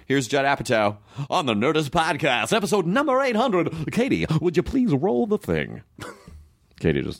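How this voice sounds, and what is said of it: Announcer-style radio voice. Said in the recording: “I just did radio voice.”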